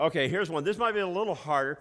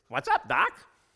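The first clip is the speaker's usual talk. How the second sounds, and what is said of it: Poor imitation of cartoon character voice. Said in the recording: “I do a terrible job and a terrible imitation ... see if you can try to figure out who this is from the old cartoons ... I'm not claiming that I got these down”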